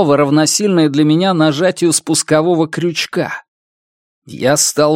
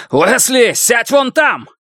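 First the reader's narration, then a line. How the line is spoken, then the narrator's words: Shouted. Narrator (Russian): выкрикнул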